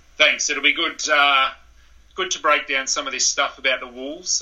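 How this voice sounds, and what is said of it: Australian accent. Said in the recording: “I'm sure people can tell by your accent, but you are from Australia”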